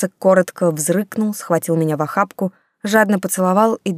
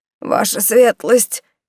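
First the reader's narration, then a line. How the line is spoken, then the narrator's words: Hoarse wheeze. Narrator (Russian): прохрипел он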